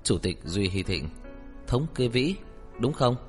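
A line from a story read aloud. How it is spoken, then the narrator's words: Sharp gritted question. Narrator (Vietnamese): Tưởng Thiên Lỗi lập tức sắc bén, gằn giọng hỏi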